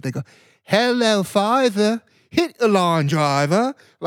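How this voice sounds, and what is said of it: Put-on Australian accent. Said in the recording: “They do it in like an Australian accent.”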